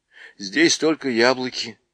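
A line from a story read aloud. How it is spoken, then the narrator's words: Sad. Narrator (Russian): печально сказала Люси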